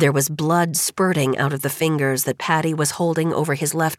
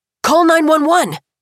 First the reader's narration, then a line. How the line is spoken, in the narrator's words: Chad shouted